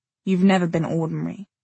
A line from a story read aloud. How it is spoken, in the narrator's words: Jay said, his voice very quiet